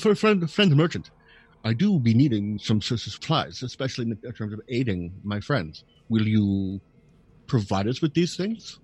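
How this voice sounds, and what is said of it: Funny draconic character accent. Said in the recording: “Zubari voice ... Your draconic accent is funny.”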